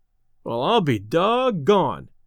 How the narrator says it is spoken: exclaimed Delaney

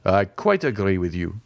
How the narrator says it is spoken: said Morcerf

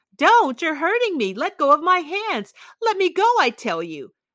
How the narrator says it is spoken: Then she shrieked terrifyingly, hysterically

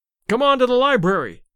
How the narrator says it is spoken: shouted Larry

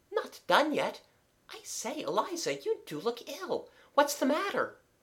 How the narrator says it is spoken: So thorough was she, and so pale, that Kathleen exclaimed

